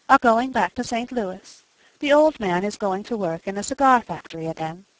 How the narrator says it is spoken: she said calmly

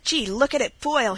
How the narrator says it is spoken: he cried

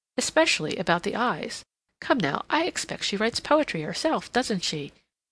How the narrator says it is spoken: she asked in a jocular tone

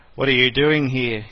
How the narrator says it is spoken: he growled

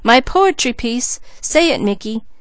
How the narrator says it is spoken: she cried

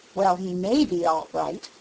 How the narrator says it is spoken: said Peter

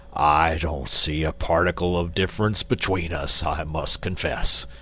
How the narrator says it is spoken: retorted Quox gruffly

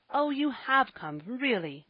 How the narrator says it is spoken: cried Ben, springing over the woodpile with a beaming face

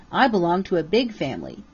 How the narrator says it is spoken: said he

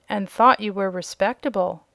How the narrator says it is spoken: said another

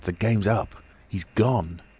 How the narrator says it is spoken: cried Kemp

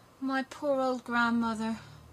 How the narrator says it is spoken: sighed Gerda

